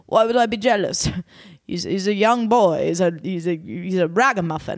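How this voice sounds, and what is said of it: Bad impression of Ken. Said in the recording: “really bad impression ... my impressions worse”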